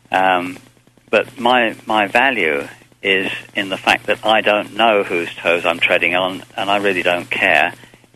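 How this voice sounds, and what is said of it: English accent. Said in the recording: “You can tell by my accent. I'm an Englishman”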